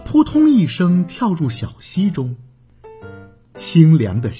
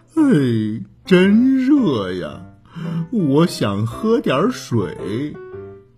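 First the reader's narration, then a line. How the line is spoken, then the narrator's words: Sighing complaint. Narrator (Chinese): 小熊波波唉声叹气的抱怨说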